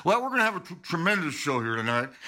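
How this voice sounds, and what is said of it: Bob Hope impression, trailing-off voice. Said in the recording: “that Hope impression... his voice would always trail off at the end. You could never understand what he was saying”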